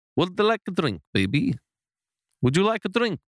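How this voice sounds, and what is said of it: Put-on Spanish-Italian accent. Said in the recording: “I was sort of a Spanish Italian sort of thing... I have to think of Super Mario before I do it... That's very exotic”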